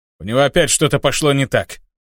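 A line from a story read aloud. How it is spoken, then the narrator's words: Snort. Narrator (Russian): хмыкнул Титан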